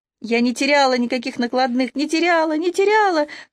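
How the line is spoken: Shrill woman's shouting. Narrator (Russian): кричал визгливый женский голос

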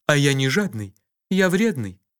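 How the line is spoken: Calm explanation. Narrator (Russian): спокойно объяснил Кофа

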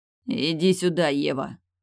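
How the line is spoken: Growling. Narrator (Russian): прорычал он

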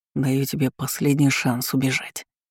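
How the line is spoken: Hoarse whisper. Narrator (Russian): прошептал он от хрипотцы в его голосе

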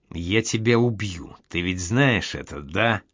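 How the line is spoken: Hissed. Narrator (Russian): прошипел

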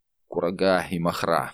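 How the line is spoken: Indifferent tone. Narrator (Russian): говорит он безразличным тоном

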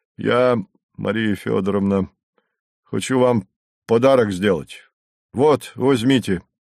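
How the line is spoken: Embarrassed deep voice. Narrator (Russian): смущенно пробасил он

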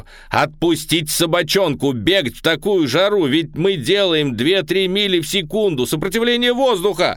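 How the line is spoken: Yelling. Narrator (Russian): заорал я

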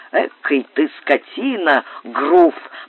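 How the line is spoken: Annoyed grumble. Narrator (Russian): проворчал с досадой

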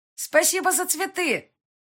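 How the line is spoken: Loud. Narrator (Russian): громко сказала я

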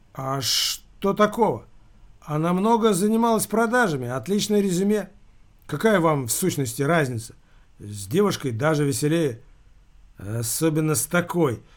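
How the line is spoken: Quiet. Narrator (Russian): негромко сказал Скотопаских

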